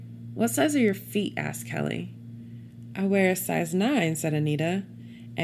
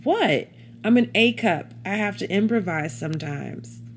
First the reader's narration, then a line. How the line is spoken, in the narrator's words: Noticing everybody looking at her, she exclaimed